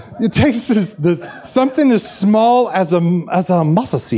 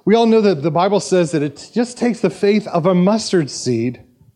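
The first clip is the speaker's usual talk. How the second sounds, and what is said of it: Put-on South Korean accent. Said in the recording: “my South Korean accent”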